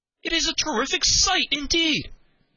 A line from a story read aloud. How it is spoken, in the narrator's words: cried Henry